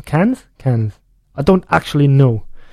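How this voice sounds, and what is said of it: Mild Scottish accent. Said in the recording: “That was in a mild Scottish accent. ... it sounded like a Scottish accent.”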